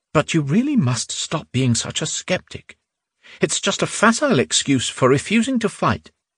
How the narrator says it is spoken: Sir Logdin said quietly

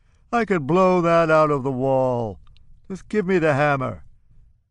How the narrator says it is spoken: he says, laughing contemptuously

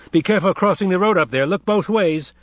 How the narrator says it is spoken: Dick shouted after them

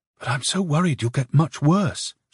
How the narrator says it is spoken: she whispered

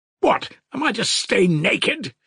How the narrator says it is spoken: he shouted

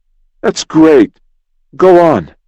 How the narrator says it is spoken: cried Jim softly

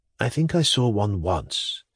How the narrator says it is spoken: said Pavel Pavlovich in the same low voice

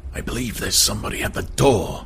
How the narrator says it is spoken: he whispered

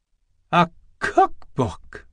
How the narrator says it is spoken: cried

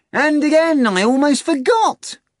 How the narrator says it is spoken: Azazello exclaimed

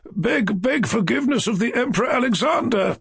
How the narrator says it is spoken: I cried to him

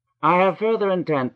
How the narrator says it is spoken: said he

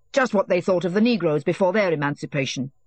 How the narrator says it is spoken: said Petzov angrily

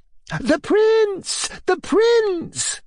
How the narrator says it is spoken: cried all the guests at once

